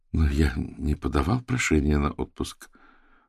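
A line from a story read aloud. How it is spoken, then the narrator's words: Confused, slightly steadier. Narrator (Russian): проговорил Владимир все еще растерянно, но все же чуть более уверенно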